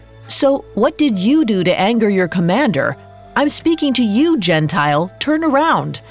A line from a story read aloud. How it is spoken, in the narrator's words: He called out to the guard